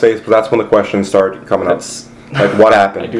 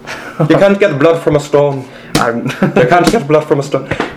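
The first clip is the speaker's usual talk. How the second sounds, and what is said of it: Put-on Irish accent. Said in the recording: “the Irish accent.”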